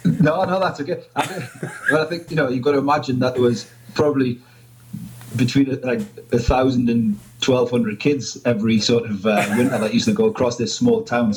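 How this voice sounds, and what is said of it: Geordie northeast English accent. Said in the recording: “a bunch of guys from the northeast ... I'm only teasing you about your accent ... a Geordie accent”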